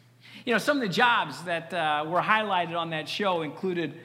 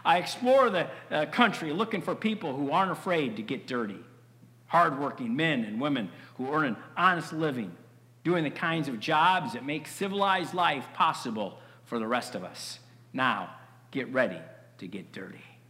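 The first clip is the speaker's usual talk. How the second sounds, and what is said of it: Deep-voiced impression of Mike Rowe. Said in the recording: “Mike Rowe ... he had this great deep voice. ... I can't imitate it, but try.”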